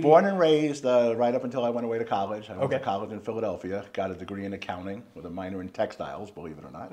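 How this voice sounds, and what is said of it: Slight New York accent. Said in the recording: “maybe a New York accent ... Slight New York accent ... Slight New York.”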